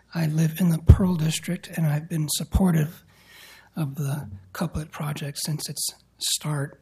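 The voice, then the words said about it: Slightly hoarse voice. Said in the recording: “I was a little hoarse.”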